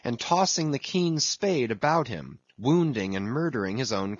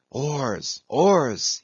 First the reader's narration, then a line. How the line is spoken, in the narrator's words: he intensely whispered